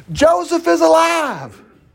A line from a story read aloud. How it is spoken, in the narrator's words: they shouted to him